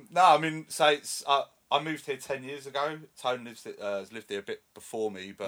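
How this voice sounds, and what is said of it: North London English accent. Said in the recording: “I'm from North London, hence the accent.”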